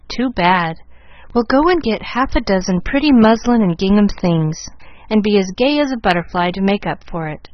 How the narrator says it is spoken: laughed her father, really touched by the patches, and Molly's resignation to the unreliable

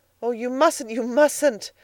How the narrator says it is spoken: exclaimed Edna

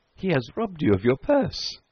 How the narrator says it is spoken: they laughed

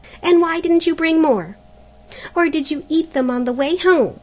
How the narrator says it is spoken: said Helena harshly

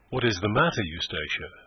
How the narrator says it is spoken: he said

